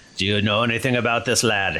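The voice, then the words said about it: Inconsistent put-on accent. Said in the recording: “My accent, it may be sort of floating around a bit.”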